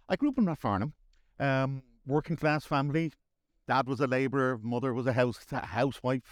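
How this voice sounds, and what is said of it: Dublin Irish accent. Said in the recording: “I'm guessing by your accent that you're originally from Dublin”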